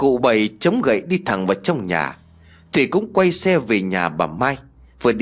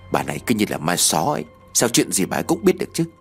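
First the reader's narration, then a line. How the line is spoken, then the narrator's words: Muttering to herself. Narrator (Vietnamese): Thủy lầm bầm trong bụng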